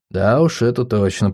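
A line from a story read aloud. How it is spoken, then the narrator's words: Muttering. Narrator (Russian): пробормотал я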